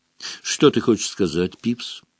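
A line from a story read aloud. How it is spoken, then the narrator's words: Calm question. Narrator (Russian): спокойно спросил Дамблдор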